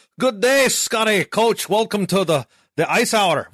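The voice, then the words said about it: Bad put-on accent. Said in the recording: “my bad accent”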